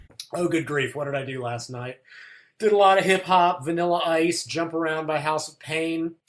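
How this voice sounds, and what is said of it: Slightly raw, hoarse voice. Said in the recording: “my voice sounds a little bit raw, I stayed out too late singing karaoke last night”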